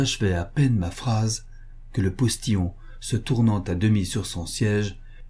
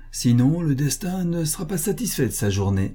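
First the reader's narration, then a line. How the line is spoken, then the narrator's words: Laughing. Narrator (French): dis-je en riant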